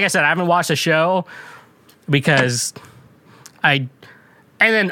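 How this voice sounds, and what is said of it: Usual voice. Nothing is said of it.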